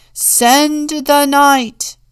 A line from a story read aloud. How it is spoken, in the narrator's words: everyone shouted